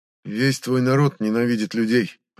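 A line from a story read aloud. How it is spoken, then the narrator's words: Flat even tone. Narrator (Russian): ровным тоном проговорил он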